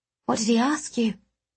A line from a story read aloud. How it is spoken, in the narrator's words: I murmured, deep in thought